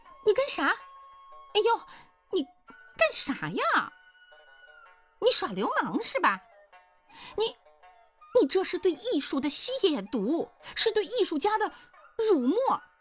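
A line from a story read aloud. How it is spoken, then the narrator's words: Shrill woman's scream. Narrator (Chinese): 那娘们儿就跟尾巴被谁踩住了一样，滋哇一声昂起头尖叫道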